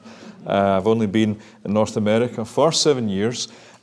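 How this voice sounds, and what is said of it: Scottish accent. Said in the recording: “one of these wild Presbyterians from Scotland ... You probably can tell that by the accent.”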